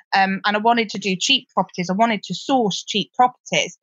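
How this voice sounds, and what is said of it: Gloucestershire English regional accent. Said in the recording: “I'm from Gloucester. You can probably tell that from my accent.”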